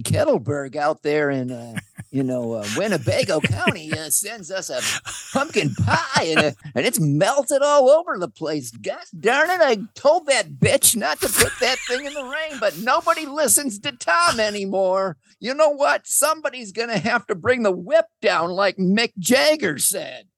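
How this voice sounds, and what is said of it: Tom Skilling weatherman impression. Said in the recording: “really good impression of Tom Skilling. He's this weatherman”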